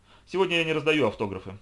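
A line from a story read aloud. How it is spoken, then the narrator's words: Mysterious mutter. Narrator (Russian): загадочно пробурчал Арнольд Шварц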